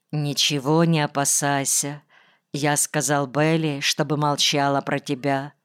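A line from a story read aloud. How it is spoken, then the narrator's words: Quiet. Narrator (Russian): тихо сказал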